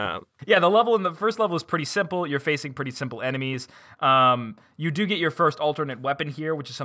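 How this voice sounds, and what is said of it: Usual voice. Nothing is said of it.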